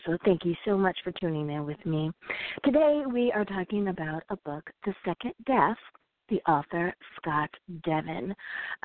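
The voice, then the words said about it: Slightly raspy voice. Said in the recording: “As you can hear, I have a little bit of a raspy voice”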